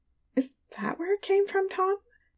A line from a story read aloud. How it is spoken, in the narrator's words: She mumbled